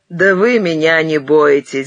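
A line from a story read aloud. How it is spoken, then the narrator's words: Laughing. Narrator (Russian): засмеялся опять Ухаров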